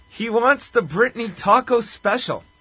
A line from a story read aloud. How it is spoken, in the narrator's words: Gordy yells